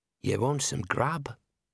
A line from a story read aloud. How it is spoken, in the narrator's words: The voice was almost a whisper